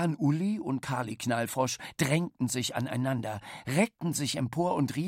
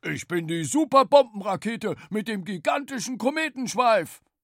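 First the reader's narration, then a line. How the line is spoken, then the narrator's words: Roaring. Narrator (German): Bollermann brüllte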